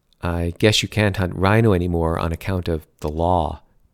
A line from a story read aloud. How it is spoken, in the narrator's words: Bernard said